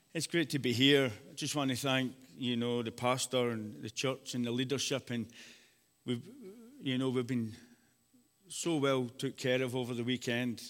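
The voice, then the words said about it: Speaker's own noticeable accent. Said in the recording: “an accent you can understand”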